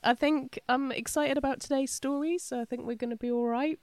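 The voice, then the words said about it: Congested voice from a cold. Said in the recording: “as you can probably tell by my sexy voice right now... I've picked up a nasty cold”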